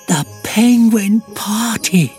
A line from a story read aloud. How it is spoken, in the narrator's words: gasped Fluffy